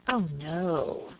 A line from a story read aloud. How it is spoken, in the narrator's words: replied Miss Tonks, with a chilling accent